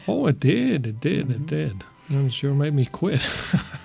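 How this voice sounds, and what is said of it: Strange accent, not Norwegian. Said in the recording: “this strange accent that certainly is not a Norwegian one”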